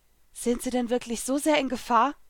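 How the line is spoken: Anxious question. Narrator (German): fragte ich ängstlich

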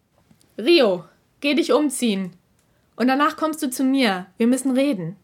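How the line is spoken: Loud, for all to hear. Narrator (German): fuhr Kurois Stimme so laut fort, dass es jeder hören konnte

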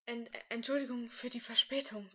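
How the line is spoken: Panting. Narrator (German): keuchte Lukas Hilsch

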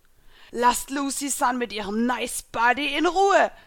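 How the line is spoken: Monstrous ghost shouting. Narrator (German): rief der monströse Geist

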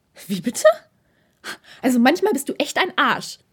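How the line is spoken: Flustered angry hiss. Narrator (German): fauchte Takeda ihn an, unsicher, ob er nun sauer oder eher peinlich berührt sein sollte

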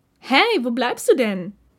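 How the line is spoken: Called out. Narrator (German): rief Ishida Takeda zu sich, sobald er in Hörweite war

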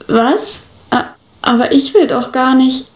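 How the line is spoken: Awkward stammer. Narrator (German): stammelte etwas unbeholfen

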